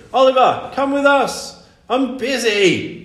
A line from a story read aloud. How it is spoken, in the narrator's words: shouted Oliver back